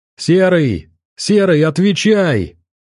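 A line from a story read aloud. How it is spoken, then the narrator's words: Shouting into microphone. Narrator (Russian): кричал Миклуха в микрофон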